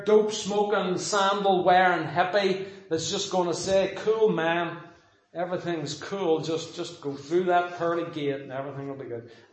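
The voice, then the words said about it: Put-on laid-back hippie accent. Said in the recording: “That's my hippie accent.”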